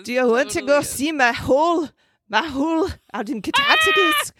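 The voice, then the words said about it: Attempted Australian accent, sounds Scottish. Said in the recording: “My Australian accent... That was my Scottish accent... Actually, I hear the Scottish a little bit... I was really trying to roll my R's”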